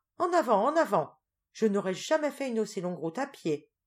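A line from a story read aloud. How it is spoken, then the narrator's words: Exclaimed. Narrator (French): s'écria Teresa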